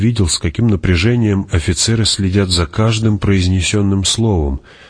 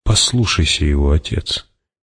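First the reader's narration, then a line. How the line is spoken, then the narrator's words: Quiet. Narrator (Russian): тихо сказал Пауль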